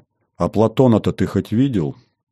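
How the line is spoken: Young woman's quiet question. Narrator (Russian): тихо спросила девушка

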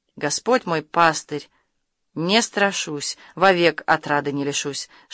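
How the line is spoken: Whisper from gray lips. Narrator (Russian): шептали посеревшие губы

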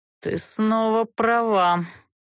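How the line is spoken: Conciliatory sigh. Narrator (Russian): примирительно вздохнул Олтерн

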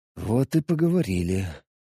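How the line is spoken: Sigh, in control. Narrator (Russian): вздохнул я, чувствуя, что уже полностью все контролирую

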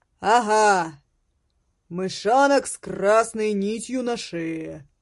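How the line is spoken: Booming voice. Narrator (Russian): прогремел голос

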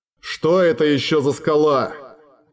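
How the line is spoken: Grumbling. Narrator (Russian): проворчал Глоэдр

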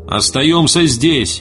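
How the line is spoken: Shouting. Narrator (Russian): прокричал Эрвин

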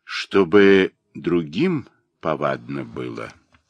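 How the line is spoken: Plain. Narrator (Russian): ответил он

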